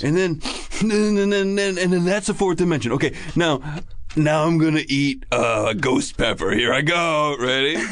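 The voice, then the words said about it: Impression of a YouTube kid. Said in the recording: “Let me do an impression of the kid on YouTube that we watched.”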